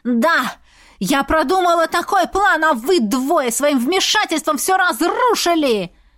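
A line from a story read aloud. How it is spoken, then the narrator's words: Witch's shriek. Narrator (Russian): завопила ведьма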